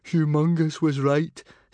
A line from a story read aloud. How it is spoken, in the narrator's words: said Fishlegs to Kamikaze, gloomily